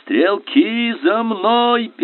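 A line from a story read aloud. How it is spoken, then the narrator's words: Shouting over noise. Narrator (Russian): перекрывая грохот, крикнул Фок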